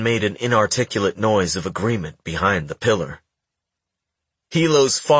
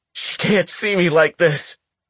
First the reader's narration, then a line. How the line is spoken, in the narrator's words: Aiden sobbed